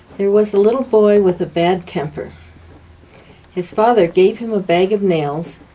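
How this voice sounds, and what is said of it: English accent. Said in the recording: “Her accent is much better than mine. ... Very English.”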